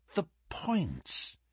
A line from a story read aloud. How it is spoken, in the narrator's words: he muttered